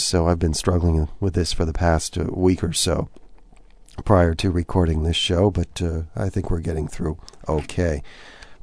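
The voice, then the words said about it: Voice sounds a little strange. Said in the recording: “my voice sounds a little strange, it's that a certain flu virus has been going around”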